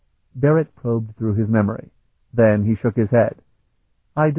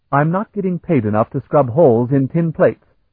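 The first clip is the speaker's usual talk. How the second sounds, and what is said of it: Louder voice. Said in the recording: “he said in a louder voice.”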